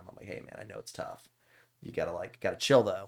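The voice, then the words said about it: Whispered speech. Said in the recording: “I'm whispering.”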